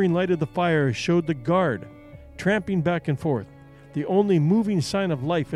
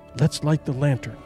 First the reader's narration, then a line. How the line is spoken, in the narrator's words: she whispered